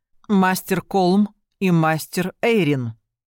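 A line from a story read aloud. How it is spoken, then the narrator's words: Loud and clear. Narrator (Russian): громко и отчетливо произнесла Светлана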